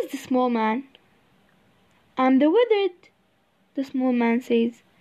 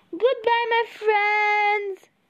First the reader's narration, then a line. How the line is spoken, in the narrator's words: she shouts